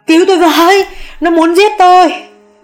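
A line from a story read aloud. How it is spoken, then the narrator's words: Screaming. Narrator (Vietnamese): mụ Hường thét lên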